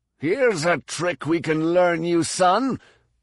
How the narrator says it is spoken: snarled

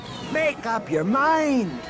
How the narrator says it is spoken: Droma yelled back

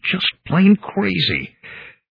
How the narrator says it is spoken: I mumbled

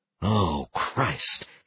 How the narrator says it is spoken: Kelvin said under his breath

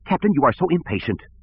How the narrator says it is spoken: Sivran snapped

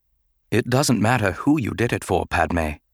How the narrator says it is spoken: said softly

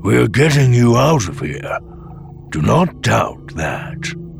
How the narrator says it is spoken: the old Bothan had rumbled

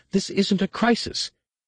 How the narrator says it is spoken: Kip sputtered

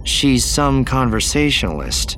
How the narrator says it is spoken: Jaina said dryly

